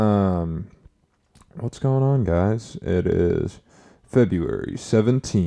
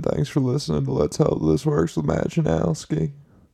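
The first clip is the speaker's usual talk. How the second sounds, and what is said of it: Rough Bill Clinton impression. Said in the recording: “my Bill Clinton impression ... a shitty Bill Clinton impression”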